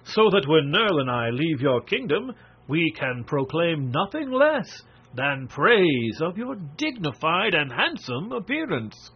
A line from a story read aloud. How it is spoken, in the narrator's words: replied Marvel laughingly